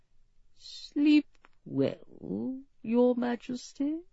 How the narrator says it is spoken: came Lord Dudley's voice, almost tenderly

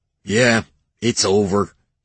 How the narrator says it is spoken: he grunted

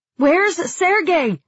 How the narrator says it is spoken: I shouted

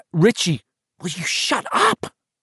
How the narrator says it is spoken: Beverly hissed at him

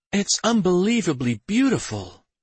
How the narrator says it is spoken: she breathed

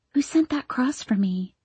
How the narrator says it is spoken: I whispered

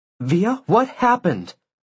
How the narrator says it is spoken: Isabel asked sharply

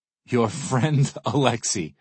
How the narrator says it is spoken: I laugh out loud

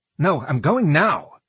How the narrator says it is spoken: he snapped

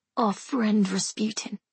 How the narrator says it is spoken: Alexei mutters

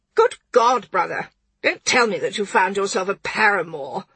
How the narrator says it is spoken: She spat the word out as though it were a grape pip

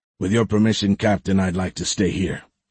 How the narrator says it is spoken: he said in a gruff voice

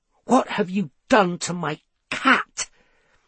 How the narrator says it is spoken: he said through gritted teeth

